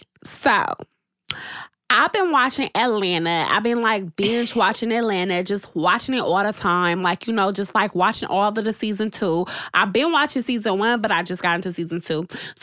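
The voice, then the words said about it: Put-on ratchet voice. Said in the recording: “in a ratchet voice”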